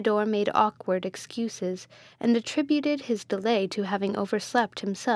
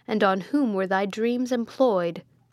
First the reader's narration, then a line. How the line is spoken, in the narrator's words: said the friar sternly